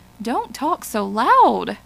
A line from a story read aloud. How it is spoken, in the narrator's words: cried